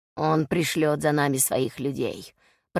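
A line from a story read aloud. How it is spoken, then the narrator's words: Grumbled. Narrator (Russian): проворчал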